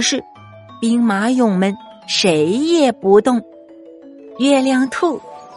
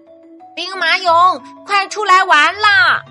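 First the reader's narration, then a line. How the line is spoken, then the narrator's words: Loud shout. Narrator (Chinese): 青蛙 大声的喊道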